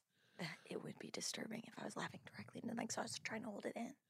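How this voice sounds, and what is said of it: Soft-spoken ASMR voice, louder than whisper. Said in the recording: “You're not doing a very good job of whispering. You're kind of... You're bringing it up here. ... I'm doing soft-spoken ... ASMR.”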